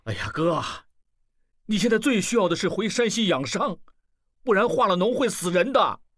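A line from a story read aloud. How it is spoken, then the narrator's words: Loud, impatient. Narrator (Chinese): 不愿意听下去，大声说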